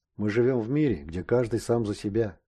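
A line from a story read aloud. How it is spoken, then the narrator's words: Heavy sigh. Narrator (Russian): тяжело вздохнул Шустов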